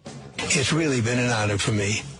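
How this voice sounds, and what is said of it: Bad Australian accent. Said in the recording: “That was Australian. Bad, bad, bad.”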